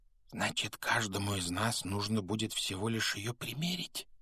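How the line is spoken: Whisper. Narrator (Russian): прошептал Рон

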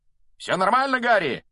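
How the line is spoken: Shouted mid-flight. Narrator (Russian): на лету прокричал Фред

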